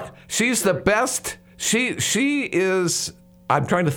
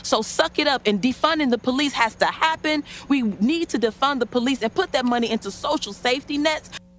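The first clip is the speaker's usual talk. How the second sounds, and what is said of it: Imitates a woman's voice. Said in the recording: “How'd you like my imitation of that woman? ... That was beautiful”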